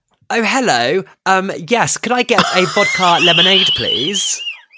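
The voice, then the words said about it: Posh English accent, Kate Middleton impression. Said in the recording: “speak a bit more posh ... doing my best Kate Middleton ... I was doing that accent”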